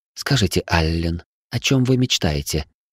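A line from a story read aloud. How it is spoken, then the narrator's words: Soft, gentle. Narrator (Russian): мягко произнесла она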